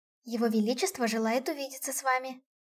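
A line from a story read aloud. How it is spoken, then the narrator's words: Conspiratorial whisper. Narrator (Russian): заговорщическим тоном прошептала она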